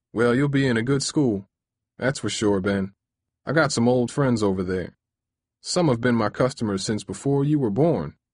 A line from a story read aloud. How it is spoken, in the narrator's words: said with a chuckle